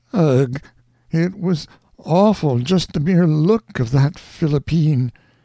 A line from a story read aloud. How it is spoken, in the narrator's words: a cold little shudder quivered along down the widow's meager frame, and she said in a weak voice